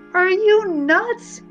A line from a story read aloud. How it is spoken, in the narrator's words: Sam screamed